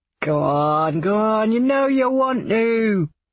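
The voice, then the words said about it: London Cockney accent. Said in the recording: “a real London accent or a Cockney piss take”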